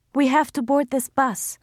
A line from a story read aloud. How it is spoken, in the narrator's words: Laila cried, aware that her voice was shaking